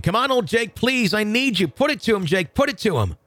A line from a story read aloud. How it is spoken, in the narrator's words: I started yelling once again